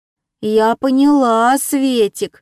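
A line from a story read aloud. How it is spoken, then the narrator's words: Unsure drawl. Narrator (Russian): неуверенно протянула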